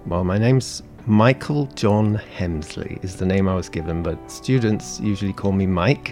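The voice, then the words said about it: British English accent. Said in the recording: “I will keep my British accent... normal British accent”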